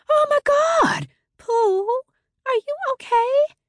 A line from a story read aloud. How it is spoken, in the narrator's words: Mom rushes into the room screaming